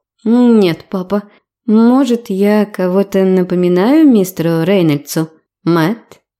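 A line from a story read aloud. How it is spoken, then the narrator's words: Gentle. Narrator (Russian): Лорен мягко произнесла его имя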